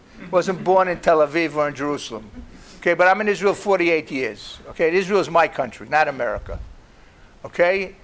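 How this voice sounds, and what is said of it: New York accent. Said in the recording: “You can tell from my New York accent.”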